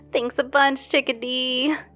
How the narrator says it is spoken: she chirped

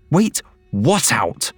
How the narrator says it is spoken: Kim said sharply

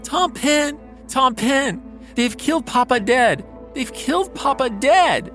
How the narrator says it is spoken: He cries to the White House doorkeeper, Thomas Pendle

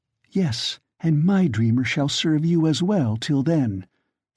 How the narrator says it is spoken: she breathed

